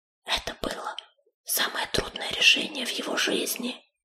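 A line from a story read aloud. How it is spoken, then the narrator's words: Confiding whisper. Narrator (Russian): доверительно прошептала она на ухо Крутобоку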